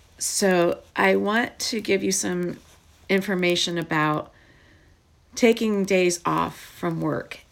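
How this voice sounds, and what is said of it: Hoarse, croaky voice. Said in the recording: “I'm still coughing and my voice is still sounding like I am a frog.”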